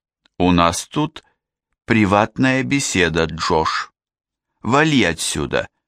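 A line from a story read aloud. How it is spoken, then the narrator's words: Pointedly slow. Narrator (Russian): подчеркнуто медленно сообщила Нора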